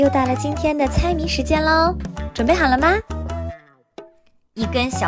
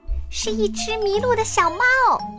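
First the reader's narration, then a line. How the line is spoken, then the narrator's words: Excited cry. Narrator (Chinese): 阿波林兴奋地叫了出来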